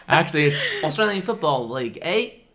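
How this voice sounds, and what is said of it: Put-on Australian accent. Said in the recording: “That's your Australian accent? ... I believed you're Australian for a second.”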